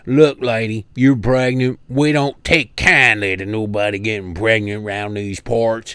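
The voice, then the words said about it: Put-on Southern accent. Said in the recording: “Probably had a sick southern accent in her story.”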